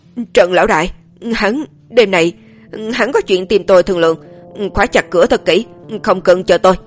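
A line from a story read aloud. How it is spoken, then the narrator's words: Trembling, struggling voice. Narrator (Vietnamese): gã vừa giãy giụa vừa bò dậy, trực tiếp run rẩy nói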